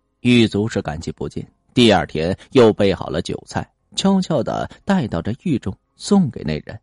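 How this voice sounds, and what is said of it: Usual voice. Nothing is said of it.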